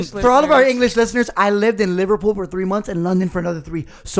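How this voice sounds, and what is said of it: Usual voice. Nothing is said of it.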